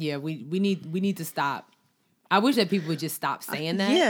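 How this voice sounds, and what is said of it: Usual voice. Nothing is said of it.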